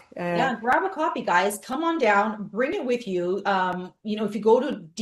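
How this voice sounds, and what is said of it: Non-American English accent. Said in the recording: “If you didn't understand ... accent, that's zero for those of us that are American.”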